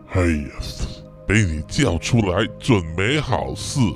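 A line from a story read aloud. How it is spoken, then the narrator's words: Deflated, dejected. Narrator (Chinese): 暗蛇啊，就像泄了气的皮球一样啊，一脸泄气的说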